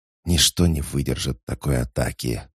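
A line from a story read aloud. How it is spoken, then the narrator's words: Whispering. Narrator (Russian): прошептал Теций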